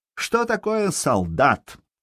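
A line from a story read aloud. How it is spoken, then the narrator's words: Clipped shouting. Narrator (Russian): кричал он отрывисто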